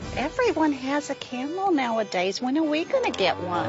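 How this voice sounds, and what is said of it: Jewish accent. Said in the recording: “with the Jewish accent even”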